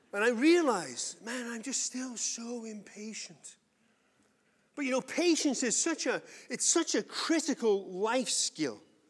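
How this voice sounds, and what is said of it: English accent. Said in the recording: “Then I realize I'm English. ... I've got an accent”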